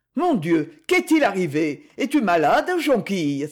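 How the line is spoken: Exclaimed. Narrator (French): s'écria-t-il

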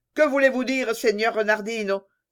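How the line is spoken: Exclaimed, king. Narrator (French): s'écria le roi

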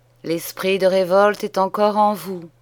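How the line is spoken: Sighing clergyman. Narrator (French): soupira l'ecclésiastique

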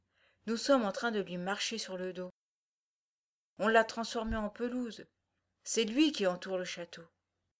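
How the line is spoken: Teenage girl murmuring. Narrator (French): murmura l'adolescente

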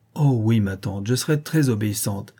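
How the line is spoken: Joyful tender exclamation. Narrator (French): s'écria Vassilissa, dont le cœur débordait de joie et de tendresse

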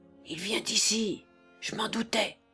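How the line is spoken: Furious murmur. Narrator (French): murmura-t-il avec rage

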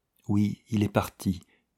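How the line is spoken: Almost a whisper. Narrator (French): dit-elle presque dans un murmure

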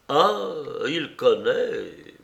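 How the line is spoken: Stammering. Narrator (French): balbutia Paul

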